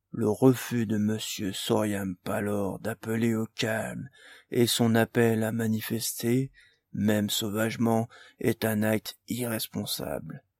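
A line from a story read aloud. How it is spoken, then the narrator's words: Minister's monotone. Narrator (French): dit le ministre d'une voix monocorde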